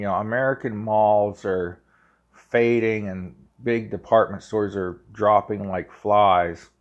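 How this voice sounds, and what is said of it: Ohio Valley American accent. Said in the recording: “Pardon my Ohio Valley accent when I say malls and things”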